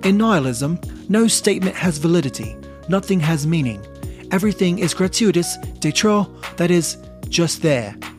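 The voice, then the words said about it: Put-on British accent. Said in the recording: “I probably should have been done doing this in a British accent, so I'll finish it out with that.”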